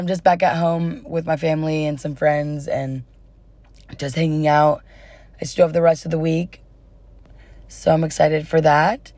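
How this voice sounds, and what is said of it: Slightly hoarse, fading voice. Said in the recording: “I'm kind of losing my voice a little bit”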